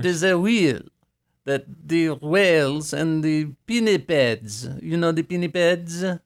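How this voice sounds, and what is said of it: Put-on French accent. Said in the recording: “I love this accent. I'm going to keep being French the rest of my life.”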